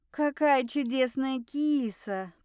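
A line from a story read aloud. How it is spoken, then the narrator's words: Drawled. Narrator (Russian): протянула я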